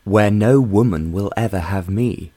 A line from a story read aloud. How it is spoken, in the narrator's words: John declared firmly